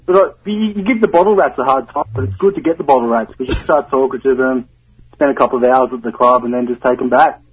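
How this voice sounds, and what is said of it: Australian accent. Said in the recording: “Down under. ... Can you imagine if I had his accent ... You got that accent.”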